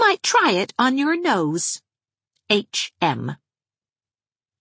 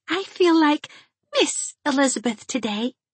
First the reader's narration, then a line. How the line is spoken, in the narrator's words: she told Anne with a sigh of delightful excitement